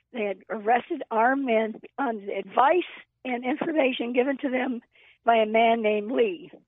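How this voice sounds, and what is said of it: Nearly lost, strained voice. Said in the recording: “my voice is almost gone”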